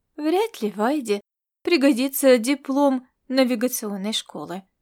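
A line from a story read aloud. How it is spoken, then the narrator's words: Calm. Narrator (Russian): сказала она спокойным тоном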